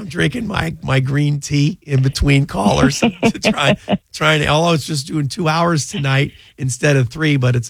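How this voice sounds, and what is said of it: Slightly raspy, rough voice. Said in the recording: “You sound good. I think you sound very good. A little raspy ... I sound like a dying horse in here.”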